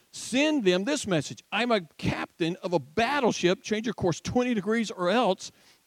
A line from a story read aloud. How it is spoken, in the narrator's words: By this time, the captain was furious and he yelled